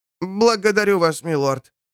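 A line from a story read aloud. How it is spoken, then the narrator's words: Joyful reply. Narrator (Russian): радостно отозвался Луис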